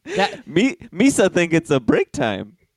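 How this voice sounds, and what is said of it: Jar Jar Binks character voice. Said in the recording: “Was that a good Jar Jar Binks impression? ... It was perfect.”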